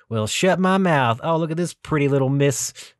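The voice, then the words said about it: Exaggerated Texan accent. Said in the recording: “you have to play up the accent ... I start sounding a little bit more Texan”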